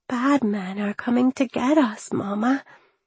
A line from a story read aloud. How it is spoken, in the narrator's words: whispered